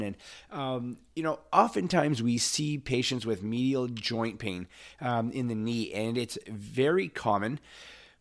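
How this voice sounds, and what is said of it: Raspy, hoarse voice. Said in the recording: “raspy voice this morning. Just came down with COVID”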